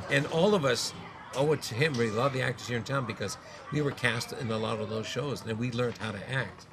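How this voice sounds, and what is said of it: Nasal American-sounding accent. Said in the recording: “I'm from Winnipeg, and I sort of have a kind of American accent because I talk through my nose a lot”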